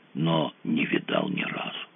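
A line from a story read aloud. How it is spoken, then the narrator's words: Dazed voice. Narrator (Russian): сказал очумелым голосом Фредди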